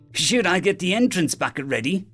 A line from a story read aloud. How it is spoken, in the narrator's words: Dio asked happily